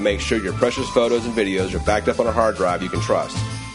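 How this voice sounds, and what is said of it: Texas accent. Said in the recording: “his Texas accent ... just sounded cool”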